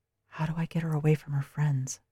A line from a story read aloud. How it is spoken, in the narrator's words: Mordecai whispered